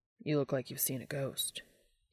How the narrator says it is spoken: Dean whispered to him

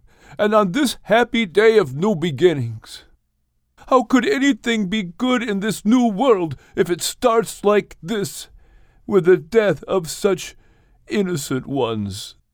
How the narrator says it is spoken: Shem cried out

